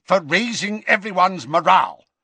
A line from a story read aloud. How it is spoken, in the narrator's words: snapped Scrimgeour